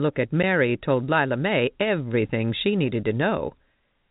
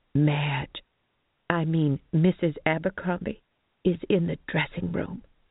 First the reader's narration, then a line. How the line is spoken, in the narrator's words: Mary announced in a moderated whisper